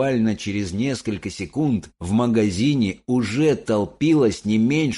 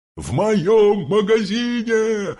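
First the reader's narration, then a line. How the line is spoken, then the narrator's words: Yelling. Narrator (Russian): орал он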